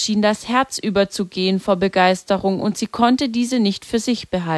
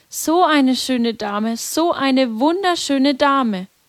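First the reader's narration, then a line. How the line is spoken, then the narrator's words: Repeated calling out. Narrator (German): Jacinta rief immer wieder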